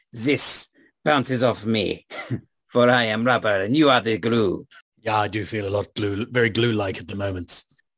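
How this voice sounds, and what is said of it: Overly suave put-on accent. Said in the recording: “my accent is becoming a bit too suave”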